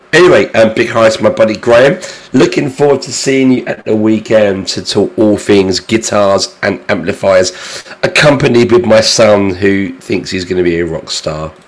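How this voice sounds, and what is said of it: Hoarse, failing voice. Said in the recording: “Excuse my voice. I am losing my voice this evening... me sounding like someone that's been kicked in the testicles... I have to come down with a cold”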